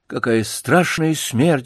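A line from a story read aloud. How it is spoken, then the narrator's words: Sighing. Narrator (Russian): вздохнул Бутон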